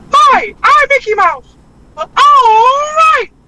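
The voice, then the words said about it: Mickey Mouse cartoon voice. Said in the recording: “as Mickey Mouse”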